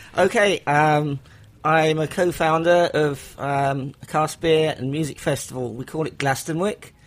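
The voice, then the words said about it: English accent. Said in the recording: “Here's the English accent that we love.”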